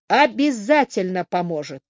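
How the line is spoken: Plain. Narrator (Russian): сказал Арбикан

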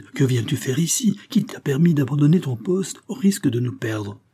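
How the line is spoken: Exclaiming. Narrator (French): s'écria-t-il

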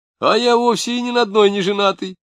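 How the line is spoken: Said cheerfully. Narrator (Russian): радостно сказал Генка

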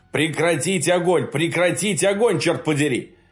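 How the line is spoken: Yelling. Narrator (Russian): Изворян заорал в ком

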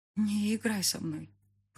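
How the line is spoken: Quiet plea. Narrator (Russian): просит тихо

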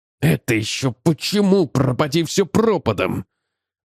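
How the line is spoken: Furious bellow. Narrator (Russian): взревел капитан, напрочь позабыв о своем намерении проявить себя тонким психологом

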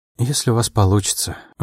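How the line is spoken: Sighing. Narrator (Russian): вздохнула Одри

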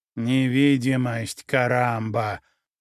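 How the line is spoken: Growled. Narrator (Russian): прорычал Тосик

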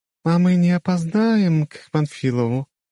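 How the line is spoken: Purring. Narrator (Russian): промурлыкала Мышкина

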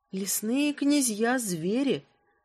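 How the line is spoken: Embarrassed mumble. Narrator (Russian): Все же пробормотала она, смущенная необходимостью говорить княжичу то, что знают и малые дети

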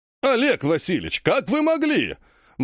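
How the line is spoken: Indignant gasp. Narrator (Russian): Возмущенно ахнул Лихолетов

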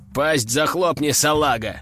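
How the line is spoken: Gruff bark. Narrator (Russian): рыкнул Игорь

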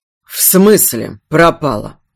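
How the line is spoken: Sharp interruption. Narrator (Russian): резко перебил ее герцог

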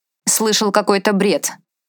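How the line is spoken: Snapped. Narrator (Russian): огрызнулся Барух

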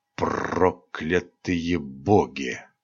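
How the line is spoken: Near hiss. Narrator (Russian): почти прошипел Дархарс

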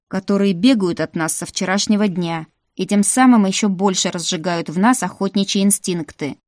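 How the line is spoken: Barked shout. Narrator (Russian): гаркнул Сальер

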